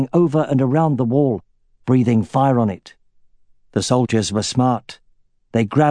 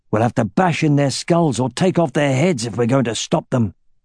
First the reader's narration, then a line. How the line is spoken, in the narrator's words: he growled to Baldur